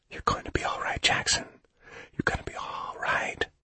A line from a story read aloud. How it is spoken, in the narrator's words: Mellis whispering